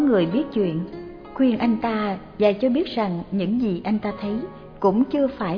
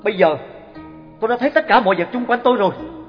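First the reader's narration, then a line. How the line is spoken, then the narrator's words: Loud. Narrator (Vietnamese): Luôn lớn tiếng nói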